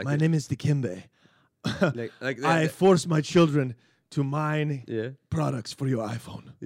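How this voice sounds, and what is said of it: Put-on African accent. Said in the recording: “hack African accent, go with Hotel Rwanda type thing”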